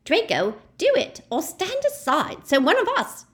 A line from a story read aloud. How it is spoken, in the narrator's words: screeched the woman